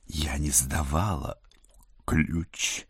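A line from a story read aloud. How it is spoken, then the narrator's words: Meaningful whisper. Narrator (Russian): многозначительно шепнула мне на ухо Жюльет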